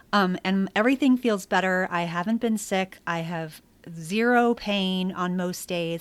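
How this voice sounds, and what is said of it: Slightly off voice from illness. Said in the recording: “I've only been sick once, which was just recently. That's why my voice sounds a little funny.”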